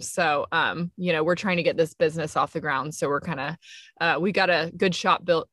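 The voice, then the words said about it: Alabama Southern twang. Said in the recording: “I thought I heard a little Alabama in your voices there... I thought I'd gotten rid of most of my twang... You're going to hear y'all come out every now and then.”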